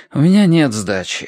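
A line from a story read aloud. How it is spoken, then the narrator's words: Sighing. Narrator (Russian): вздохнул я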